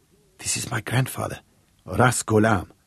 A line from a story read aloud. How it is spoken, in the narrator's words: Sarah whispered to the group